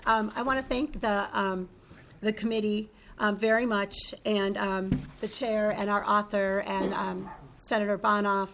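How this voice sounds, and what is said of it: Hoarse, failing voice. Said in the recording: “apologize for my voice. I'm losing it”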